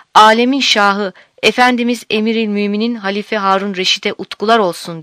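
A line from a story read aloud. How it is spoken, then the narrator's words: Crowd crying out. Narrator (Turkish): diye haykırmışlar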